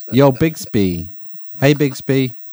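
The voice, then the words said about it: Put-on Bronx accent. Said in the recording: “like a Bronx accent”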